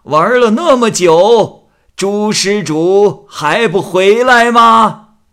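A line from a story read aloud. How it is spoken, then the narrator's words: Old monk calling loudly. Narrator (Chinese): 老和尚高声叫道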